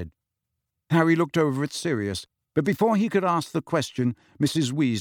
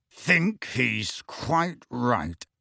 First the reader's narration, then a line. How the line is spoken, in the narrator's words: said Sirius through clenched teeth